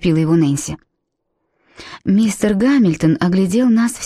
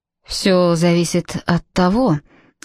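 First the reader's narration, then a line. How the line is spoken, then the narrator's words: Gloomy. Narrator (Russian): мрачно начал мистер Гамильтон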